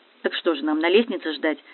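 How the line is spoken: Angry question. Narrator (Russian): сердито спросила сестра

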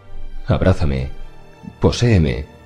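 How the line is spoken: Female murmur. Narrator (Spanish): murmuró ella

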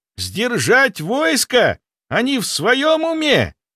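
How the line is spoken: Exclaimed. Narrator (Russian): воскликнул один из бойцов

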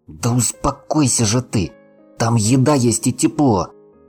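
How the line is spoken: Hissed through clenched teeth. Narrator (Russian): сквозь зубы прошипел Руслан

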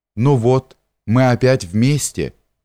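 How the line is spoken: Sad, tender. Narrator (Russian): грустно и ласково говорит

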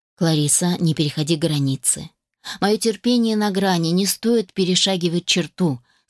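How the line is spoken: Calm but dangerous warning. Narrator (Russian): спокойно, но с опасной интонацией в голосе предупредил

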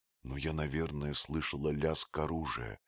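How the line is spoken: Whisper. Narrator (Russian): прошептала Алиса

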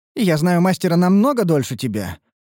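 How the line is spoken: Snorted. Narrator (Russian): фыркнула Лейтарис

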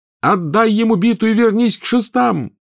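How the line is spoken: Yelling. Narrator (Russian): завопил Гарри

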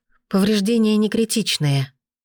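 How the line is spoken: Breathless. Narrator (Russian): выдохнула она

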